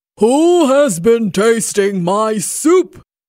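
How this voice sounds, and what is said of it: Big deep Papa Bear voice. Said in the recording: “he cried in his great big voice.”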